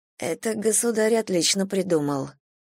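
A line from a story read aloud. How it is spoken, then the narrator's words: Muttered. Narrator (Russian): пробормотала я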